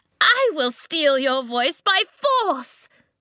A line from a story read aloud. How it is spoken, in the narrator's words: shrieked